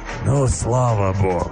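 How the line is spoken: Relieved joyful exhale. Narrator (Russian): Радостно, как мне показалось, выдохнул зверь и облегченно

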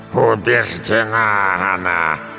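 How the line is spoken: Growl, slowly calming. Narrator (Russian): прорычала бабушка, медленно успокаиваясь

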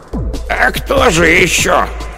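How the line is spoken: Hoarse cracked voice. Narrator (Russian): Голос у хозяйки оказался хриплый, надтреснутый, как рупор довоенного патефона

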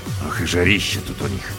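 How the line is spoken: Grumbled. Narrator (Russian): проворчал

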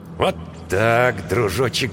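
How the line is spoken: Muttering. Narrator (Russian): бормотал капитан

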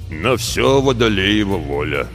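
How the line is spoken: Low drone, muffled by beard. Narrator (Russian): прогудел наставник в седую бороду

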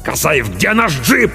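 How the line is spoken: Barked order. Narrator (Russian): рявкнул капитан

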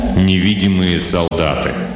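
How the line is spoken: Joyless snort. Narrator (Russian): Бол невесело хмыкнул

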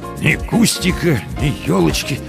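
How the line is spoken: Dejected mutter. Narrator (Russian): сокрушенно пробормотал Комаровский

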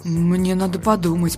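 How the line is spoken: Mutter. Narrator (Russian): пробормотал он

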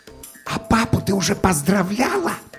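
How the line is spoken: Hissed. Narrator (Russian): зашипел я

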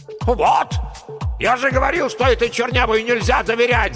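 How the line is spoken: Yelled. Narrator (Russian): заорал геолог-разведчик

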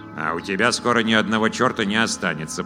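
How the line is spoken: Grumbling. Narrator (Russian): проворчал Вур

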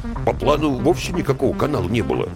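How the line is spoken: Grumble from behind. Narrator (Russian): буркнули из-за спины

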